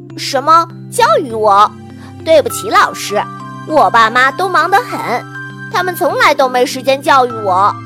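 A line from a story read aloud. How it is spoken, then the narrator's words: Amused. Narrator (Chinese): 突然好笑 说道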